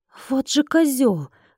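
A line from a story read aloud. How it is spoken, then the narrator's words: Exclamation. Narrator (Russian): воскликнула я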